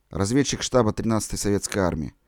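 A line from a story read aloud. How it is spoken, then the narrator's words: Quiet reply. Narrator (Russian): тихо отвечал перебежчик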